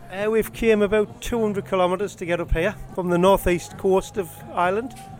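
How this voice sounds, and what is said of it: Northeast English accent. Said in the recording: “that's a northeast accent, is it? ... That certainly is a northeast accent.”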